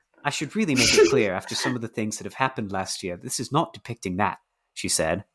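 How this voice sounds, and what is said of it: Slight put-on British accent. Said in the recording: “Catch my slight British accent. ... It's very good.”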